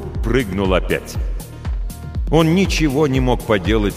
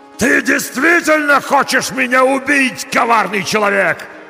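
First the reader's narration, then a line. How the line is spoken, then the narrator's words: Yelling. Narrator (Russian): заорал монстр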